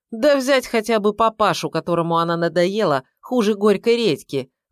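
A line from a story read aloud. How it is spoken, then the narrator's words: Smirking snort. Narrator (Russian): хмыкнул Киреев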